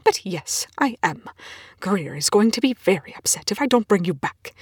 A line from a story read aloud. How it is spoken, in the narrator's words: Rush snaps